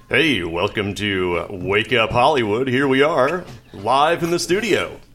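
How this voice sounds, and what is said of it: Caffeinated morning radio host voice. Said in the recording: “should I use my radio voice? ... use your radio voice ... You're like the morning talk show guy ... that guy's very caffeinated”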